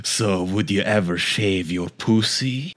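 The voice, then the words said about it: Vampire-like Vladimir accent. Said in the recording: “you sound like Vladimir, a vampire or something ... I hate how you say pussy in this accent.”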